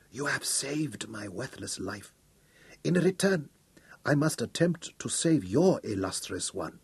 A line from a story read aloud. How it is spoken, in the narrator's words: she whispered